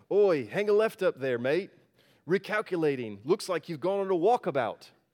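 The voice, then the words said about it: Put-on Australian accent. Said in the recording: “I'll do my best Australian accent”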